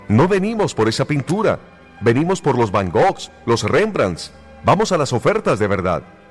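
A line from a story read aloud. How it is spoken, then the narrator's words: Angry shout. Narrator (Spanish): Otra voz gritó con enojo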